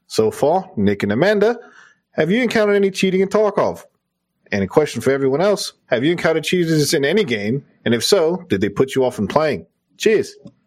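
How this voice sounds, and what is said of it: Convincing put-on Australian accent. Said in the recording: “That might be your best accent, dude. ... Dude, you do a fucking killer Australian accent.”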